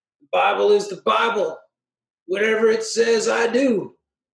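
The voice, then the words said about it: Put-on Southern accent. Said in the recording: “I don't know why that always has to have a Southern accent.”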